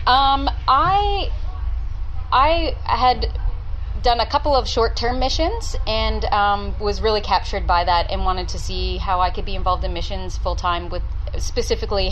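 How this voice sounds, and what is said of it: Canadian English accent. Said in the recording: “I detect your accent is not Australian. ... No, I'm Canadian.”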